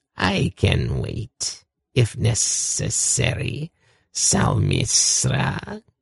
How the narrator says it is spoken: he purred

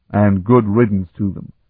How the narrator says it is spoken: Platymy growled

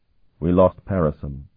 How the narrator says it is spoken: he said sadly

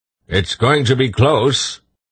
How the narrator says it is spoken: Thulgarath shouted above the wind

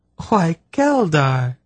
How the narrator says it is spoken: she exclaimed delightedly

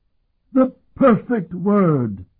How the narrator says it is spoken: Arashim cried

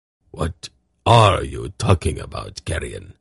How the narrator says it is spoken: Zakath muttered

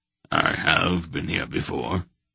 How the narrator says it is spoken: the old man told him quietly

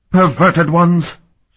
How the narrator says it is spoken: she snarled at them in the corrupt Zamox dialect

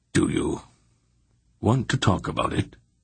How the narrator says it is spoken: asked calmly

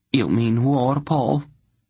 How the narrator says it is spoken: Queen Layla asked in a sinking voice

